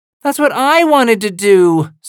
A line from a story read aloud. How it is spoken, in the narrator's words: whines